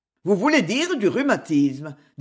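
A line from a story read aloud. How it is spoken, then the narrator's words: Curt, dry tone. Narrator (French): dit monsieur Sapsi d'un ton sec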